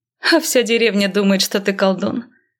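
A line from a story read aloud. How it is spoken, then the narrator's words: Laughing. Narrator (Russian): рассмеялась она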